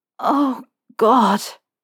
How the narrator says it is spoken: Harry said, his voice so thick with need that he hardly recognized it

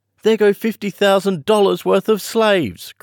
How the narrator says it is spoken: cried Kisman

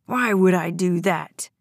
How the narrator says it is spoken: General snarled

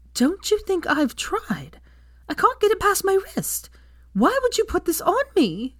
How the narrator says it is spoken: she shrieked

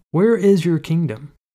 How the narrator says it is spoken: The man in rags spoke calmly

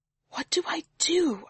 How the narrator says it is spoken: I whisper in agony to Yestrel

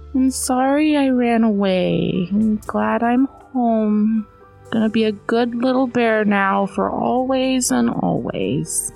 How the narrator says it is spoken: Little Bear … said sleepily

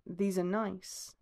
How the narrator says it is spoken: he murmurs

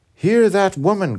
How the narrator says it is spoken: cried the vehement youth to the regent

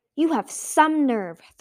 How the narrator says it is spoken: Thorn snapped

